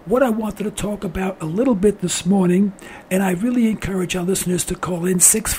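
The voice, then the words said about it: Hoarse, weak voice. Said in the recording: “I'm sorry that I've lost my voice the way I have. I'm feeling a little bit under the weather”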